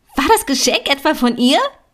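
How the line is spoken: Shrieking. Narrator (German): Lea kreischte

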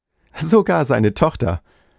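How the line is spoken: Laughing. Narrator (German): sagte er lachend

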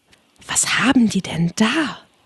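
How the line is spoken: Whispering. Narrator (German): flüsterte Alice

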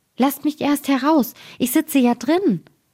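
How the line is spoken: Frightened, high-pitched call. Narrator (German): bekam der Daumerling Angst, dass er mit einer hellen Stimme rief

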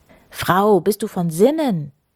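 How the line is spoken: Mayor calling out. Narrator (German): rief der Bürgermeister, also Kirko

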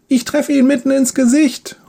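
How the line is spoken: Called out. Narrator (German): ruft Leon

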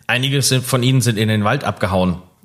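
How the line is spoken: Plain. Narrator (German): sagte Paulus

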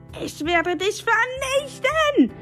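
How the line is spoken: Crazed shriek. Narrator (German): kreischte, wobei er aussah wie ein Irrer

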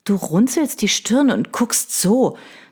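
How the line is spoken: Hissed through tight lips. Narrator (German): zischte Eva aus dem Mundwinkel, zog die Lippen straff

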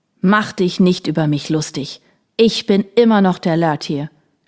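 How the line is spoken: Old man shouting. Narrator (German): schrie der alte Mann

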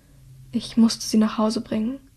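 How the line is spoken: Said very quietly. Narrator (German): sagt Hilda so leise, dass niemand außer Dreas hören kann

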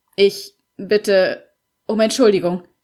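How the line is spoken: Stammered. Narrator (German): stammelte er

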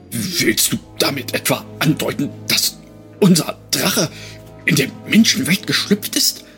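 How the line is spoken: Breathy, trembling with horror. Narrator (German): hauchte der Drachenhüter mit vor Entsetzen bebender Stimme

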